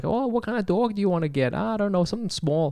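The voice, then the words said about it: Put-on accent, maybe Wisconsin. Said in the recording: “What accent is that? ... I don't know, Wisconsin?”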